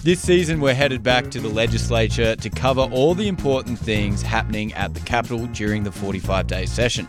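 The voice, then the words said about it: Australian accent. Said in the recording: “Don't let that accent fool you. ... I'm from Australia.”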